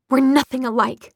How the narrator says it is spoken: she spat

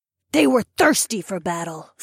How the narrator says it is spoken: Fila growled

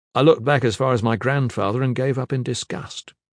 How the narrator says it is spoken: he said

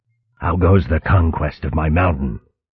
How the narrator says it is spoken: Gran Fregoral replied in her usual monotone

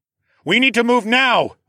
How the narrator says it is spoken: I yelled

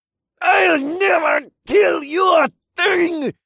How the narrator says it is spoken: he screeched through gritted teeth

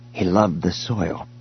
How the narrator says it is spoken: he said quietly

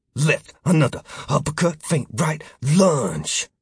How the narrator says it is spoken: muttering

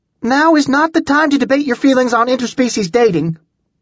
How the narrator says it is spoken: Julie shouted

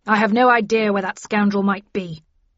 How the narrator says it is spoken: declaimed Linton angrily

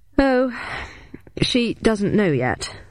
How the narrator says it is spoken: replied Bowden, sighing

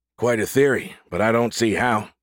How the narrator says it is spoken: Bosa said

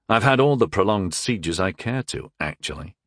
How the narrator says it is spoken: I said dryly

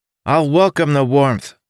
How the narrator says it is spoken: the illusion shouted back

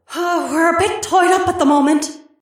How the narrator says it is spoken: Gemma gasped

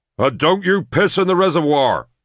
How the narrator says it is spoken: Derek yelled after them

